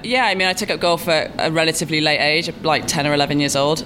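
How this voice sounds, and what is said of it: Recognizable foreign accent. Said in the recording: “people can recognize the accent pretty quickly and guess where you're from”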